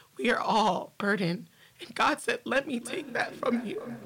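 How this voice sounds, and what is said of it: Shaky, tearful voice. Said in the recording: “I'm crying now, like my voice is getting shaky”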